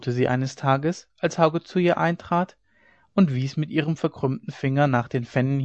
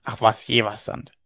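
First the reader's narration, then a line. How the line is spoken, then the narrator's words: Old woman's grumble. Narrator (German): brummte die Alte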